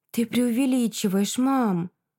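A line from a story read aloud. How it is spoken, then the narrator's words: Sighing. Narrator (Russian): Вздохнула Света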